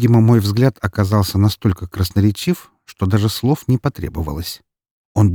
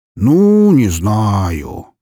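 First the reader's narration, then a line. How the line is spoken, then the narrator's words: Drawling. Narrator (Russian): протянул Броницкий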